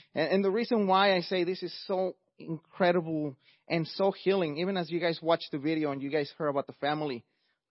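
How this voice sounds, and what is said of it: Mexican accent. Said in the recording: “as you could hear by my accent, I'm not first generation, I'm actually an immigrant from Mexico”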